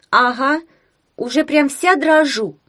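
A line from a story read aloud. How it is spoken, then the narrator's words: Muttering. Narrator (Russian): пробормотала Таня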